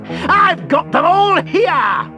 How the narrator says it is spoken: he cackled

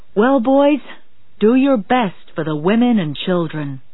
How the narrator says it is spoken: Captain Smith shouted

